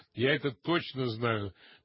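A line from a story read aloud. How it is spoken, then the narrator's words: Ringing laugh. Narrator (Russian): она, звонко засмеявшись, добавила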